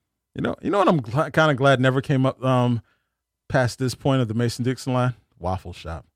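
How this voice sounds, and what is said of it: Usual voice. Nothing is said of it.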